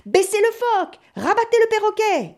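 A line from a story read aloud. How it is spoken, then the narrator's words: Shouting. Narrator (French): hurlait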